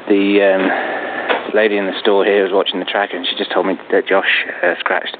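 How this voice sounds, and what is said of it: Strained, fading voice. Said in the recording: “I'm slowly losing my voice.”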